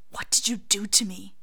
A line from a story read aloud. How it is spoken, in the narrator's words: Snape hisses